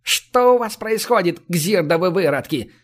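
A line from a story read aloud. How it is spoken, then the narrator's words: Angry yell. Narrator (Russian): гневно заорал он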